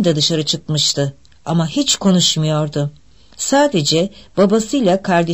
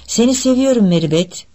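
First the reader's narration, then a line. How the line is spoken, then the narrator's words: Sibling shouting. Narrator (Turkish): diye bağırdı kardeşi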